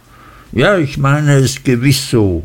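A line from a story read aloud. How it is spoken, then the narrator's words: Called out. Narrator (German): rief Mrs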